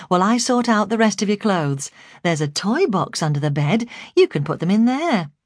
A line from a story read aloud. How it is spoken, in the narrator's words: I said brightly